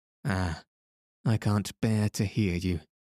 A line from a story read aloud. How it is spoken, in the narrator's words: said gloomily